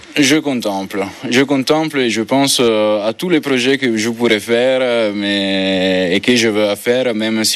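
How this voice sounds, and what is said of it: Italian accent speaking French. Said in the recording (French): “Vous voyez comment il est beau cet accent. ... italien”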